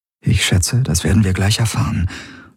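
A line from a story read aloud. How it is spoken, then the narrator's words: Murmured. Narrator (German): murmelte sie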